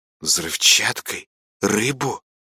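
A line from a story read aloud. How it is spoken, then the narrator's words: Hissing. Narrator (Russian): прошипела Маринка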